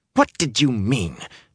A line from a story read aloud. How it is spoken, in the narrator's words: practically spat